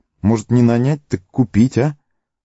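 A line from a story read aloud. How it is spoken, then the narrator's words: Uncertain. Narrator (Russian): добавил он неуверенно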